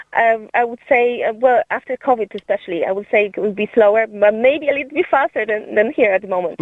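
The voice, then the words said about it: Polish accent. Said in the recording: “I detected accent ... I'm originally from Poland.”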